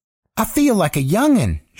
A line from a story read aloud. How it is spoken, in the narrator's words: she said, and what would have been a cackle now sounded like a young woman's laugh